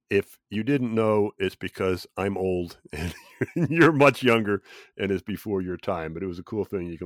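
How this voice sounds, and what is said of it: Slightly off voice from a cold. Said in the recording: “I know my voice is off a little bit ... it's not unusual to pick up a cold or something like that ... that's why we sound just a little bit different”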